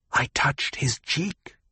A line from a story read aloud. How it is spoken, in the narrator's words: someone whispered